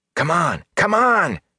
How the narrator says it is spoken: Matt panted the words

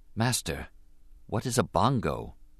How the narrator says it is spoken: Obi-Wan whispered

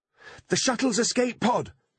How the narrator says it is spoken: shouted Holly, wiping her tears

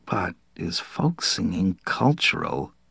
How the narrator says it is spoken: Hada murmured

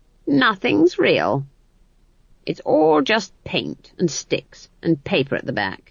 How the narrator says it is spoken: she said to the world in general, in a strangely satisfied voice

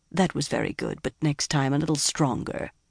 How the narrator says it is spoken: Mogadine said calmly

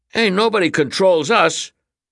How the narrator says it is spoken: the boys snapped in unison

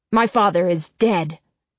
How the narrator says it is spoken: Adam shouts

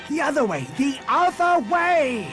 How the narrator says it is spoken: Han screamed

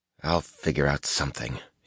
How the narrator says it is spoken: he muttered

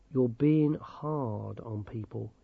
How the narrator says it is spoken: he said quietly

